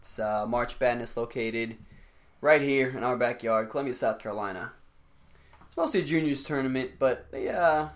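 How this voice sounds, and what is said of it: Raspy, worn-out voice. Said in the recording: “my voice is shot ... we're both a little raspy”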